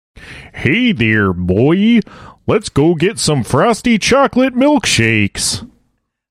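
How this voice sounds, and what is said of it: Early-season Simpsons character impression. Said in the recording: “Simpson voice back in like the first season, you know, when he sounded a little fucked up ... That's really good ... That is amazing”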